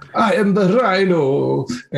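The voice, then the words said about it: Hammy put-on Russian accent. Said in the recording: “Hammiest Russian accent.”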